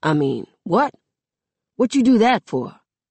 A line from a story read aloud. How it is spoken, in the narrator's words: he says in a more stern tone